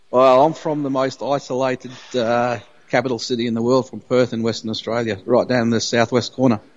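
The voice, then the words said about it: Strong Australian accent. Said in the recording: “your accent is amazing”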